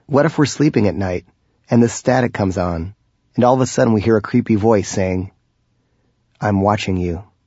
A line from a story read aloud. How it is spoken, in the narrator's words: laughed